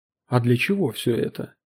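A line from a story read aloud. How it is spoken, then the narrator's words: Low-voiced question. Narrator (Russian): Поттерли вполголоса спросил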